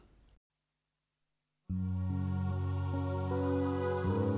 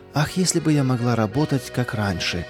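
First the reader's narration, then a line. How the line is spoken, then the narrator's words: Regretful sigh. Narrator (Russian): с сожалением вздохнула она, вспоминая нелегкое прошлое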